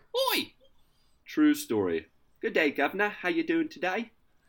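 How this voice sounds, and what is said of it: Put-on British accent. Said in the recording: “I think I'm going to just do the rest of the show with a British accent.”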